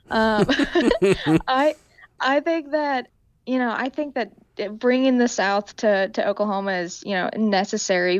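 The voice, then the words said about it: Strong Southern-tinged American accent. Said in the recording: “I've got Southern, you know, running through me like you wouldn't believe ... my horrible accent”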